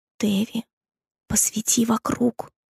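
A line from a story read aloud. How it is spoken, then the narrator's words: Whisper. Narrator (Russian): прошептал он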